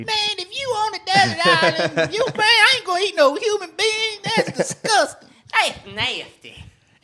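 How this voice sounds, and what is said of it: Imitates another person's voice. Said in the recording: “do a Wanda Sykes impression”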